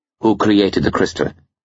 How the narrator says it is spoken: Skullduggery asked quickly

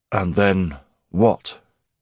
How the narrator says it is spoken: grunted Garrick in his phlegmy bass

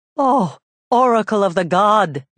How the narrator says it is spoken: Jocasta cried

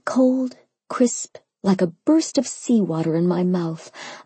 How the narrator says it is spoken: I moaned around the fork

